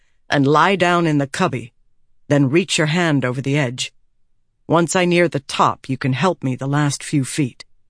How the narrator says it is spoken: he said more firmly

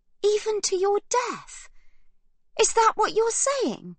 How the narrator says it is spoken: Livy gasps, eyes wide and wild

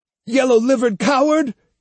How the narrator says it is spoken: he shouted

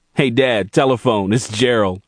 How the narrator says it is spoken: called Rob, laughing

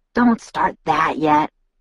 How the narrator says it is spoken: Jacob whispered back

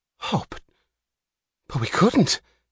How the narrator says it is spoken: gasped Mouch

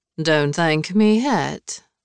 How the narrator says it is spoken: Lavinia said dryly

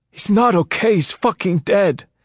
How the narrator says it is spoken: Sutter cried

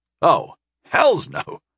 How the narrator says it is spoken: I chuckled

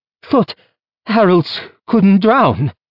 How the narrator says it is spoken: she choked out

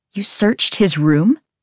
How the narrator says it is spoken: My voice rises

